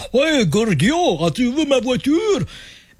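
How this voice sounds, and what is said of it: Put-on Russian accent. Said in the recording (French): “on double la voix avec une espèce d'accent accent russe”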